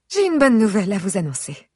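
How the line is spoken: Mother exclaiming. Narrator (French): s'exclame ma mère

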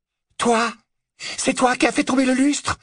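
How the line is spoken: Exclaiming. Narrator (French): s'exclama Narcissa

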